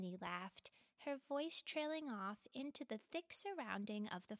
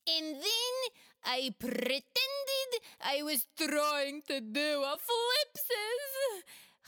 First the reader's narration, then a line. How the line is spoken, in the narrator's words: Khawler squealed joyfully